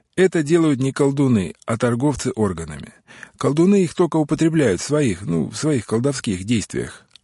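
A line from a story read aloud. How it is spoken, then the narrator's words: Very calm, matter-of-fact. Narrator (Russian): ответил Уго так спокойно, словно дело шло об добавляемых лепестках цветов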